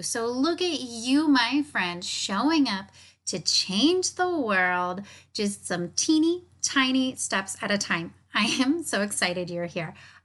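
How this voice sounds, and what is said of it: Upbeat, high-energy excited voice. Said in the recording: “hear in my voice, I am feeling so good today. I am in such a high vibration, a high mood, high energy, just really feeling so pumped up”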